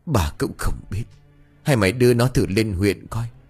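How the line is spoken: Old man sighing. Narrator (Vietnamese): Ông Tư năm nay cũng đã già yếu, ông thở dài

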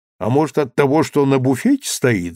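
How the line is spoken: Laughing. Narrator (Russian): засмеялся Данилов

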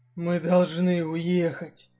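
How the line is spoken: Hoarse. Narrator (Russian): хрипло проговорил Дэн

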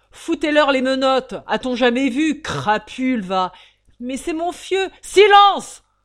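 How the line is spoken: Thundering bailiff. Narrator (French): tonna l'huissier audiencier

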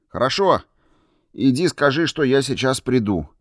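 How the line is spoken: Shout. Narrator (Russian): крикнул я

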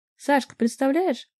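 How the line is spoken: Shouting into ear. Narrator (Russian): прямо в ухо мне кричала Вика

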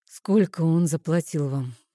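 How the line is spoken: Sighing. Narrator (Russian): вздохнул Нейтан

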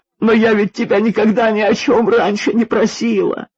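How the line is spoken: Sobbing. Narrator (Russian): Ирина вновь начала всхлипывать

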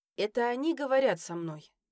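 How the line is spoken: Sighing. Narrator (Russian): вздохнула я

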